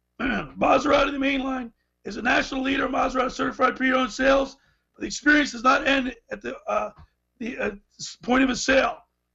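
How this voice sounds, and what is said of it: Strained, hoarse, failing voice. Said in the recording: “I'm having a hard time here ... I'm really losing my voice.”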